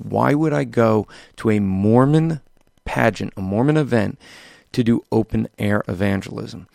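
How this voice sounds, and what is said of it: Weak, worn-out voice. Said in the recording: “can still hear to my voice. My voice is weak because I was doing a lot of open air evangelism”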